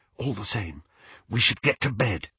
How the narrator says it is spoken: whispered Hermione

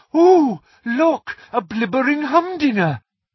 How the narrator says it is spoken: she had cried

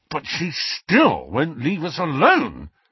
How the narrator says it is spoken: snarled Ron

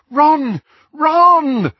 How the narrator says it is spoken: Hermione called, half sobbing

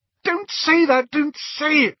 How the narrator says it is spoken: squealed Hermione

